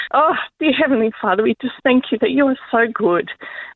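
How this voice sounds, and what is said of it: Teary, emotional voice. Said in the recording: “excuse me if it's a bit teary, because it's a bit real”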